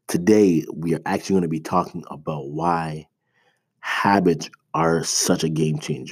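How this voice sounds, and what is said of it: Slightly off, sick-sounding voice. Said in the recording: “My two-year-old got me a little sick, so if my throat, my voice sounds a little bit off”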